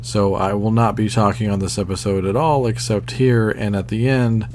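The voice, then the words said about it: Voice sounds unwell. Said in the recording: “as you can probably tell by my voice, I'm a little under the weather”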